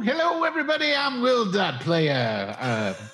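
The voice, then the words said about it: Exaggerated radio announcer voice. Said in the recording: “that ridiculous voice ... My radio voice”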